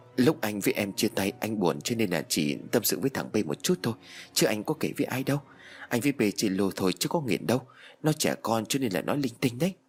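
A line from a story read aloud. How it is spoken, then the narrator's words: Stunned stammering lie. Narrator (Vietnamese): Anh sững sờ, miệng lắp bắp nói dối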